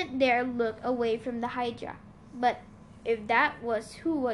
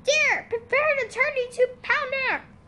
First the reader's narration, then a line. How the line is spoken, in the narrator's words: from a river behind us, a familiar female voice shouted